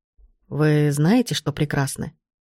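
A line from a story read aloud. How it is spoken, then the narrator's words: Sudden soft voice. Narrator (Russian): Вдруг тихо произнес он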